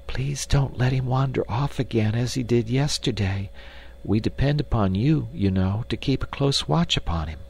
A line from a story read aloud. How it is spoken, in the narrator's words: she whispered